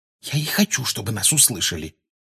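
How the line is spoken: Quiet reply. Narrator (Russian): тихо отозвалась Гермиона

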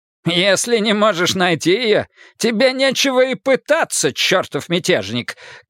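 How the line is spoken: Smirking shout. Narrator (Russian): крикнул в ответ Марн, ухмыляясь

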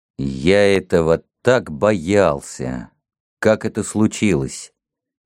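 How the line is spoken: Calm but deeply shaken. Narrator (Russian): Холмс говорил спокойно, но я видел, как глубоко он был потрясен

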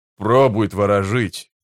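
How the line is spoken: Grumbling. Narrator (Russian): проворчал Спрут

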